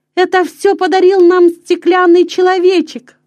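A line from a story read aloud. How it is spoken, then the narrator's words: Exclamation. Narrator (Russian): воскликнул Петер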